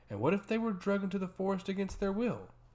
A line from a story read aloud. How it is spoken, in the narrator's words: The High Priest scoffed